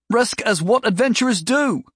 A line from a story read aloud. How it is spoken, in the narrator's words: Mobley yelled, pleadingly